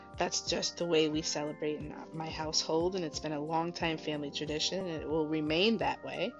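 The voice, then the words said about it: Soft, low, low-key voice. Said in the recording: “my voice is a little low, kind of talking low key because it's later, so I'm just giving a softer radio tone ... I just didn't want to have my regular tone and kind of be yelling into the microphone”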